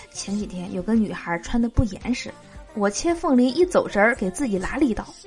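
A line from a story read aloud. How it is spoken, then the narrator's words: Quiet. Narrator (Chinese): 老板小声的说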